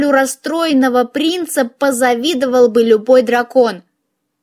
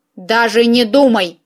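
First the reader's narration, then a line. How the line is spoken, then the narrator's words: Growled. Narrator (Russian): рыкнула я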